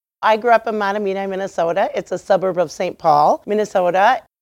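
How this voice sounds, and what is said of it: Minnesota accent. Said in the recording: “is a Minnesota native. You might be able to tell that by her accent.”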